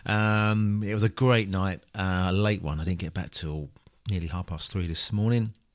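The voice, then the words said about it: Tired, jaded-sounding voice. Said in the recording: “you could probably hear it in my voice ... very a bit jaded”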